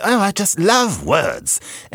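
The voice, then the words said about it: Poor mock British accent. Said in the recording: “I'm sitting here doing a mock British accent... Was that a British accent?... Not that it was a good one... I thought it was someone on Star Trek or something.”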